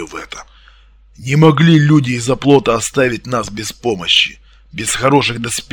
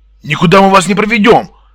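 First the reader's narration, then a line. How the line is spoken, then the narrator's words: Barked. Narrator (Russian): рявкнул Дмитрий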